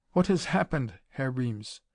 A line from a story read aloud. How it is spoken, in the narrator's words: he asked uneasily